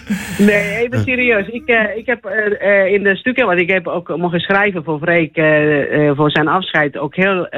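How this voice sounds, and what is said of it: Charming foreign accent in Dutch. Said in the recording (Dutch): “mijn accent ... dat accent ook om anderen voor haar te winnen. Zo charmant klinkt het ook altijd.”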